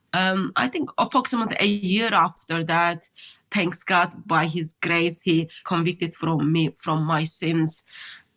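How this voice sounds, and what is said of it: Turkish accent. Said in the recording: “when I hear people's accents, I'm always trying to place people. ... Turkish.”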